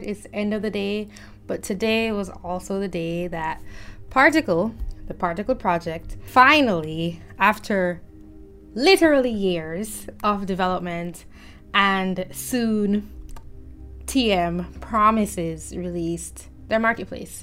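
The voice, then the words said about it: Tired-sounding voice. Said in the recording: “tired ... you can even hear it in my voice, how tired I am”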